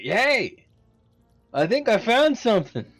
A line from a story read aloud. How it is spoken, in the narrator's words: I yell at uh, uh, Oofy